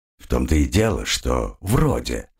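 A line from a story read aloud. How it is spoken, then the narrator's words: Grumbling. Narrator (Russian): проворчал Оригон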